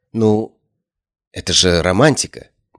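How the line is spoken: Uncertain objection. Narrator (Russian): неуверенно возразила Ария

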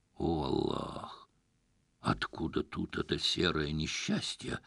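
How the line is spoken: Muttered under breath. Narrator (Russian): буркнул себе под нос Насреддин

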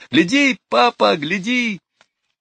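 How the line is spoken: Shrieking, shouting. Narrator (Russian): Лора взвизгнула и закричала

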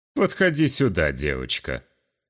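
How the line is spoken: Mocking announcement. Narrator (Russian): насмешливо объявил

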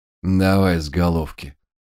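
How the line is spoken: Absent-minded grumble. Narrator (Russian): рассеянно буркнул он

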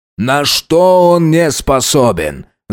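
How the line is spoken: Shouting. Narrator (Russian): закричал начальник полиции

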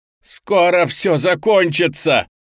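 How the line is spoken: Shout. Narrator (Russian): выкрикнул Леня

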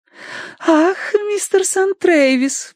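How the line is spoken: Cooing. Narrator (Russian): проворковала она

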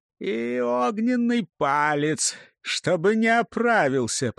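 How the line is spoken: Groaning, barely alive. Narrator (Russian): простонал змей, едва живой после битвы

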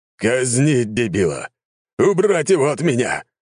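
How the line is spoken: Roar. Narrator (Russian): взревел он

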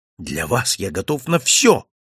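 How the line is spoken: Exclaimed. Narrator (Russian): воскликнул я

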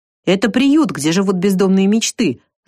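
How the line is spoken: Proud reply. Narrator (Russian): с гордостью ответил майстер Нилс, хмыкнул

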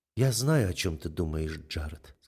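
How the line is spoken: Soft. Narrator (Russian): сказала мягко Амели

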